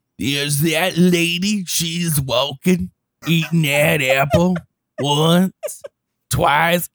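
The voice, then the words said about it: Deliberately bad imitation of another person's voice. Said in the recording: “that was my horrible Randy Newman ... to do a god awful impression”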